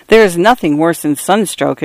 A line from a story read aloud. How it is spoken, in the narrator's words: exclaimed Lebrecht